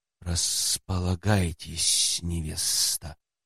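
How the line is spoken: Grimacing hiss. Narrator (Russian): Скривившись, прошипел он

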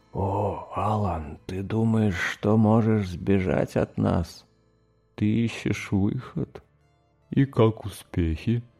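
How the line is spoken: Whispered question. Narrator (Russian): Маэстро шепотом спросил

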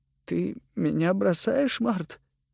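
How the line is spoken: Sad question. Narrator (Russian): спросил он печально

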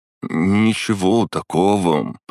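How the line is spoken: Drawling. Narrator (Russian): протянул он

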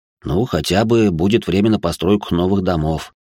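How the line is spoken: Heavy sigh. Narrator (Russian): тяжело вздохнул он

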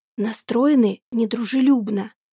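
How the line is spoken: Quiet speech. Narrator (Russian): говорит тихо

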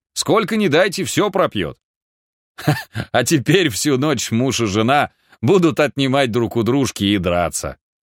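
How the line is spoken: Adding, then laughing. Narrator (Russian): добавил он и засмеялся

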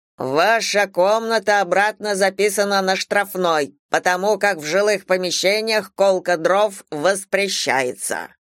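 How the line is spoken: Stern menacing speech. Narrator (Russian): дворник грозно сказал

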